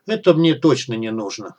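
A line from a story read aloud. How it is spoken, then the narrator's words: Dismissive snort. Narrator (Russian): хмыкнул тестомес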